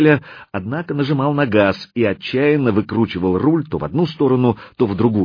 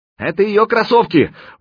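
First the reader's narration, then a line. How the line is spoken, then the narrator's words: Shouted. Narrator (Russian): крикнул Заточка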